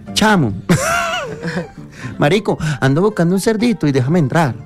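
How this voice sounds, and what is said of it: Put-on Venezuelan Spanish accent. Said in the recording (Spanish): “Venezolano ... Cierre con venezolano ... el venezolano”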